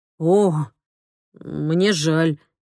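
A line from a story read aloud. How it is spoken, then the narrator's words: Strained, forced words. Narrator (Russian): выдавил он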